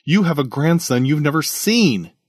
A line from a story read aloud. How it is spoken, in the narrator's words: he exclaimed